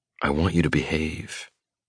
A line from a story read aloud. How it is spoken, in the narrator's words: I murmur, close to her ear